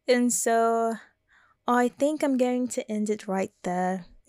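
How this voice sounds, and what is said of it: Put-on English accent, a little off. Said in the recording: “my English accent? I think sometimes I can do it like really good and sometimes I'm a little off. Today's a little off day”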